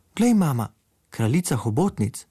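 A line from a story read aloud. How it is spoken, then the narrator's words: Calling out. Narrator (Slovenian): zaklical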